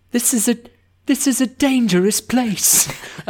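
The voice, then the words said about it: Put-on British accent. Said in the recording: “British accent”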